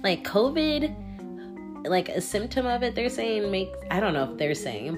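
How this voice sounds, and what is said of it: Nasal, sick-sounding voice. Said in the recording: “I'm a nasally type of person... I speak with my whole nose... I sound sick”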